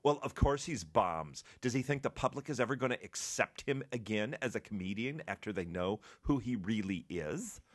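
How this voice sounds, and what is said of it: Snide, offended character voice. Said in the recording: “gave it that voice ... that is the voice of offense ... I voiced the ... snidey kind of like, oh. ... That's my offended puppet”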